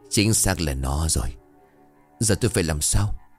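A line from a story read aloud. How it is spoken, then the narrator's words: Whisper. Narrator (Vietnamese): đoàn ... thì thào với lão bản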